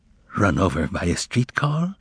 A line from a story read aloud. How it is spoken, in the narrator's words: asked Poplavsky in a whisper